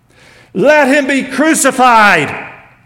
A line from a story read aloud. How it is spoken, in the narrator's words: they shouted